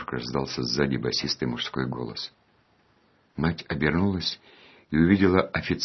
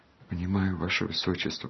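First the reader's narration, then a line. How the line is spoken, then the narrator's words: Timid babble. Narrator (Russian): пролепетала мать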